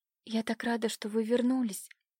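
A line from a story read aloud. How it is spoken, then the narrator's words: Tense joyful whisper. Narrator (Russian): прошептала напряженно Катя, ощущая в душе ликование от его появления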